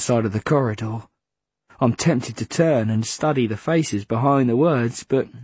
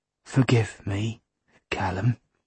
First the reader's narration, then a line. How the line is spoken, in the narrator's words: Jack whispers